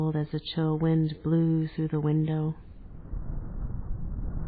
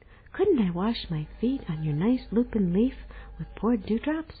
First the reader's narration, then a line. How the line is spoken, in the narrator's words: The fly asked Pip cheerfully